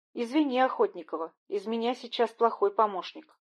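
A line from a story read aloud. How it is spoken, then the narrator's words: Plain. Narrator (Russian): ответил Мечников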